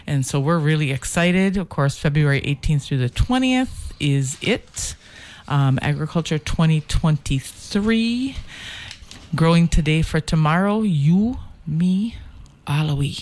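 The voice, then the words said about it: Twangy regional accent. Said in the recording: “With that Michigan Cruzan twang you got.”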